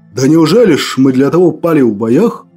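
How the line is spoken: Booming old man. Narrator (Russian): Прогремел дед Гордей

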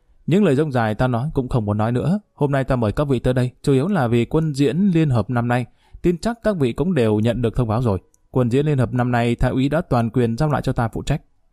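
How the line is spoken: Smiling speech. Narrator (Vietnamese): Lý Kỳ mỉm cười nói

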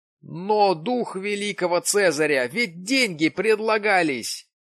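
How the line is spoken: Exclaiming. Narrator (Russian): воскликнул Джим

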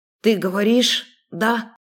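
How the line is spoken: Hoarse, incredulous question. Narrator (Russian): Хриплым голосом задала идиотский вопрос, не веря своим ушам

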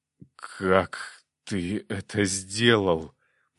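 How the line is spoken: Hoarse wheeze. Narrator (Russian): просипел князь

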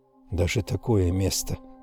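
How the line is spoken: Whisper. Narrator (Russian): прошептала Эмили Слоун

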